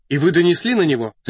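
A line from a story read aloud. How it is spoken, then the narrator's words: Sharp question. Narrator (Russian): резко спросил Рас Петрович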